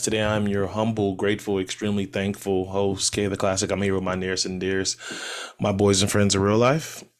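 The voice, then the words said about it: Rough, sick-sounding voice. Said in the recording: “My voice is fucked up again. I'm sick again.”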